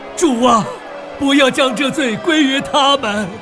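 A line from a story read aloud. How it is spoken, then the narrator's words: Loud cry. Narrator (Chinese): 大声喊着说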